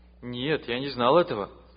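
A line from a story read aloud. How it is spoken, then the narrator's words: Plain. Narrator (Russian): ответил Павел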